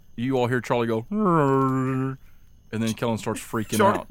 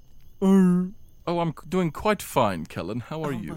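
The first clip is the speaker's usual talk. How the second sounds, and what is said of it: Educated-sounding character voice. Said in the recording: “a character voice for Charlie ... You sound so educated.”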